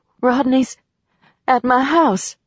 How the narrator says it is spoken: said, her voice quaking

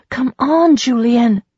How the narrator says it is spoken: said urgently

